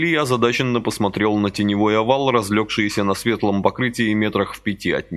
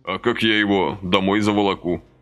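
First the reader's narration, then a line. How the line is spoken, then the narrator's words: Plain. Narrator (Russian): спросил Василий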